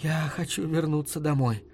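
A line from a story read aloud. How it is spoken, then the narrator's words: Fearful whisper. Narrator (Russian): сказала Лаверн боязливым шепотом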